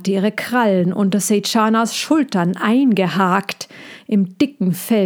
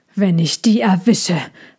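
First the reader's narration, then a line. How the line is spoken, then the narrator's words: Hissing while running. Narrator (German): fauchte Sejana immer wieder zwischen ihren Tatzensprüngen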